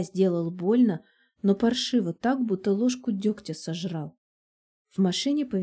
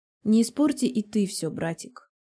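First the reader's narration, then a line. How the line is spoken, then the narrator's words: Cold. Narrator (Russian): холодно произносит Лика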